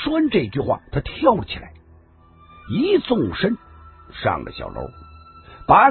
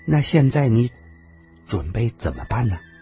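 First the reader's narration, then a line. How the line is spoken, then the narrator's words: Soft, sighing. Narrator (Chinese): 花花凤终于轻轻的叹了口气，轻声的说道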